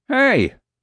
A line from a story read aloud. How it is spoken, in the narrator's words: the guard snapped